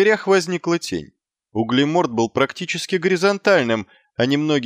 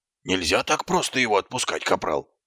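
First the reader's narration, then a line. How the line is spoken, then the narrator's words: Hissed. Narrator (Russian): прошипел Колон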